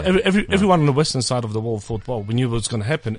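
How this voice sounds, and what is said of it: East European accent. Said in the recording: “I do have an East European accent”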